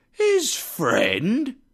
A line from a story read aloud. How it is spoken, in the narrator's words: the others exclaimed